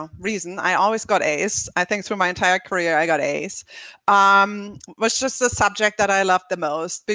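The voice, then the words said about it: Slight German accent. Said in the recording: “you might hear from my slight accent that I'm not from the US originally. So I was born actually in Germany”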